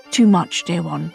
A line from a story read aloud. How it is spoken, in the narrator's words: he said gently